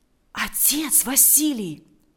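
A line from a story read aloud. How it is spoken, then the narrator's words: Whisper. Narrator (Russian): прошептал Валериан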